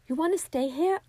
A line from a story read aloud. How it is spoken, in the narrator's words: I shouted back at Bessie